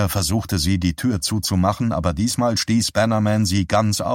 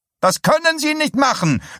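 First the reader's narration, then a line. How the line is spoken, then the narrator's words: Called out. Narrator (German): rief sie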